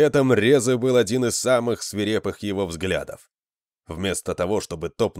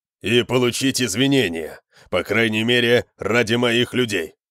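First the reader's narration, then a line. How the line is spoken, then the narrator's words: Growling. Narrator (Russian): прорычал Конан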